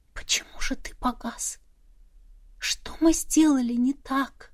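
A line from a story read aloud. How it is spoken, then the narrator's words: Whisper fading into silence. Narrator (Russian): Мой шепот растворился в тишине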